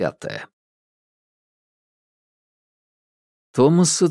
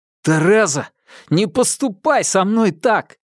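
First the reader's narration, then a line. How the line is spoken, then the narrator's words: Pained howl. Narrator (Russian): ударили кулаком в живот, и Томас взвыл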